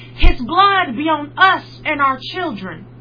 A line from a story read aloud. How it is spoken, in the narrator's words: The crowd shouted